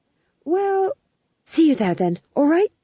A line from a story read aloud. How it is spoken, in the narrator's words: said the fool desperately